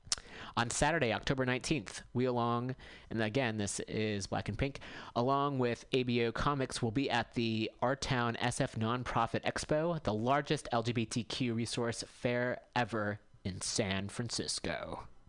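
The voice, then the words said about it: Announcer voice. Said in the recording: “Getting my announcer voice here.”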